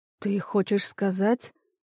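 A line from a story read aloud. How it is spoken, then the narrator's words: Quiet. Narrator (Russian): Тихо сказала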